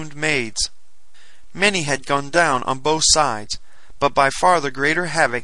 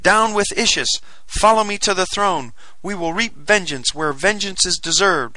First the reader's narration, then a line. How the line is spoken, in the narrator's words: I cried